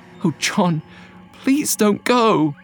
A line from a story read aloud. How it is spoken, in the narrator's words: she said, her voice trembling with anxiety